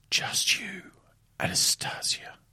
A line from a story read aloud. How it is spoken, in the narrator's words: he whispers